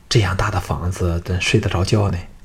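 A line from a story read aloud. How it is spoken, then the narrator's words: Astonished whisper. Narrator (Chinese): 京俊这长居山林的小子更是看得目瞪口呆，凑到项少龙耳边低声说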